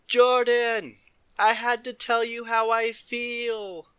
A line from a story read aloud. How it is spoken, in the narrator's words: Levi shouted at the top of his lungs